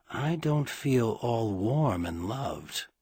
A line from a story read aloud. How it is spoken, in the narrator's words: Merlin murmur very, very softly into his ear